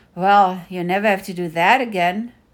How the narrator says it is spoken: Mulan sighed

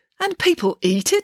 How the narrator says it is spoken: exclaimed Mum

